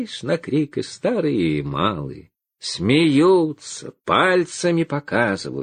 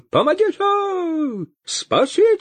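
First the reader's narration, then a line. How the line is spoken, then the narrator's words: Wild, terrified scream. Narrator (Russian): Завопил поп не своим голосом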